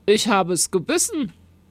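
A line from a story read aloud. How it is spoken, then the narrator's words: Plain. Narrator (German): sagte er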